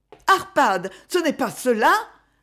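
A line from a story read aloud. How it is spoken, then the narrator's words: Breathless woman's cry. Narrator (French): s'écria la voix haletante de la comtesse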